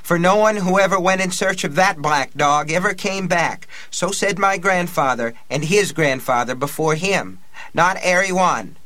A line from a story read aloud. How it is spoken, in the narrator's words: cried